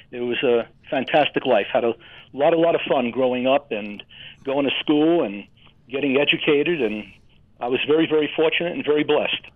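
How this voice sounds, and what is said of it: New York and Minnesota accent blend. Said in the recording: “I can hear the accent in both of those things. New York, I can hear that. And I can hear there was a little bit of the O with Minnesota. A little bit of the O there that you added in. I could tell. You're a blend of those two.”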